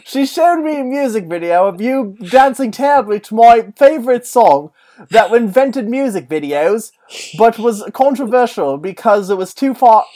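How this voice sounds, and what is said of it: Put-on accent drifting between countries. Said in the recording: “you put it on the globe, and you just like you spun the globe around real quick, and you just kind of kept your accent going up as the globe spun around”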